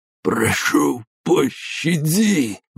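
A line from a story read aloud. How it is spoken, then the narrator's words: Strained, dry-mouthed. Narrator (Russian): выдавил из пересохшего рта Щербатов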